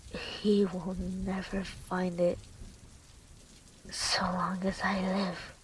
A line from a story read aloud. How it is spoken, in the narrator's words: With the visible pain, she mutters